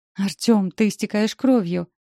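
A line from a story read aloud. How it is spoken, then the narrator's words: Frightened exclamation. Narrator (Russian): восклицаю испуганно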